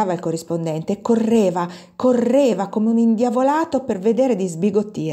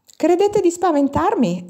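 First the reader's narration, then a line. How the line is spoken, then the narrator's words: Rapid exclamation. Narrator (Italian): esclamava e precipitava talmente la propria trasmissione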